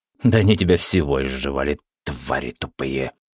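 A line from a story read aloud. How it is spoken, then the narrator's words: Hissing. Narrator (Russian): прошипела краска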